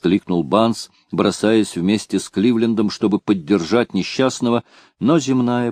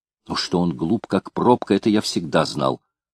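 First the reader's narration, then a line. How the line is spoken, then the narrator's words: Tearful mutter. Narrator (Russian): пробормотал Банс, утирая слезу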